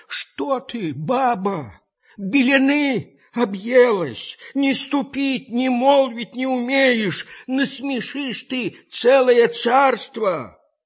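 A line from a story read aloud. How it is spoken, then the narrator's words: Frightened pleading old man. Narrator (Russian): Испугался старик, взмолился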